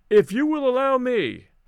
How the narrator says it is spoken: I called out

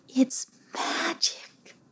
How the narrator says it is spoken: whispered Playalina, not wanting to disturb the moment

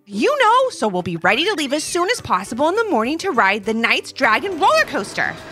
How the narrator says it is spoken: exclaimed Levi

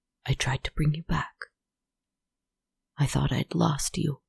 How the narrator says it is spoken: he whispered

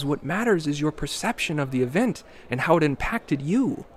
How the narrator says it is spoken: Julian exclaimed, as if he has said this dozens of times

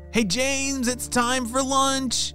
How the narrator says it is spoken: shouted his parents

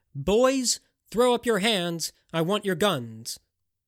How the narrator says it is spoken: Virgil shouted

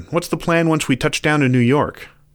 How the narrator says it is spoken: The coyote sighed

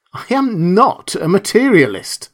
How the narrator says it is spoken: began hotly

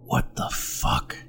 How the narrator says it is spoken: whispered

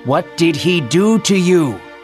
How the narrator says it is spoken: yelled

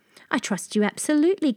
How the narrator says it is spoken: cried the king

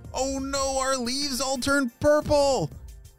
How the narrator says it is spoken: shouted Ava

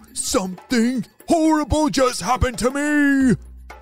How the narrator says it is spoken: cried Oliver

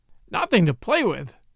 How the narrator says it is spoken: exclaimed Martha

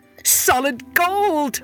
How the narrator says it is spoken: cried

